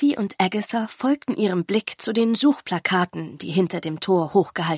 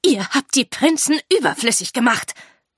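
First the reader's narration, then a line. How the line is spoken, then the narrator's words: Hiss. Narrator (German): zischte Lady Lasso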